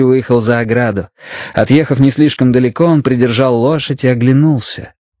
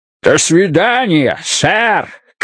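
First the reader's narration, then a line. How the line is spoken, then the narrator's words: Shout. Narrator (Russian): крикнул он Мэтью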